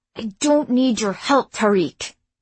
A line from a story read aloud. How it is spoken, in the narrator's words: she said through gritted teeth